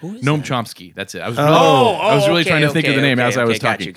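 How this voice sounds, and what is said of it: Usual voice. Nothing is said of it.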